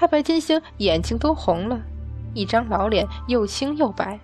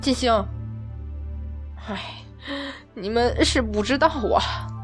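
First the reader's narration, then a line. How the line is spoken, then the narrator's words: Trembling, stammering, sighing. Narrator (Chinese): 太白金星 几个字颤了又颤，怎么也说不清 连连长叹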